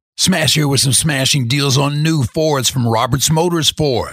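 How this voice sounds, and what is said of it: Imitates a radio host's voice. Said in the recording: “St. Louis radio legend and Big Z afternoon show host, The Smash ... I would do my best Smash impersonation”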